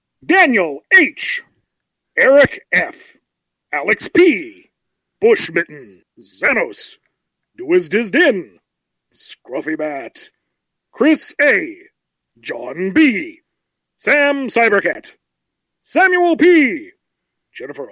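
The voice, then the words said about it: Imitates a video game announcer voice. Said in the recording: “my best impression of the announcer from Smash Brothers”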